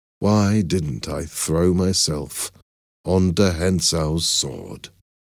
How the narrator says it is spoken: I asked myself sadly

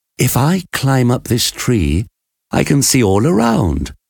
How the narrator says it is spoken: answered

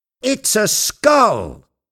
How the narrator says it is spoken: Jupiter shouted

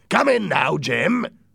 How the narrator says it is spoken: Silver shouted

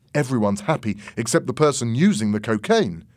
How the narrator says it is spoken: said Tony

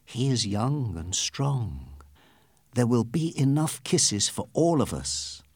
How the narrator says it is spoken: one lady whisper

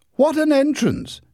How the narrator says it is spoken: exclaimed Larry

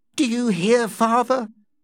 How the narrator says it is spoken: Amelia said happily

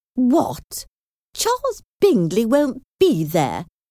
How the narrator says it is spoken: exclaimed

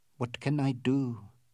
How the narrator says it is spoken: said Aouda softly

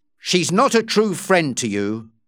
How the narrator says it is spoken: Dobbin said angrily

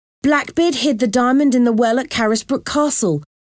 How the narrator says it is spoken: said excitedly

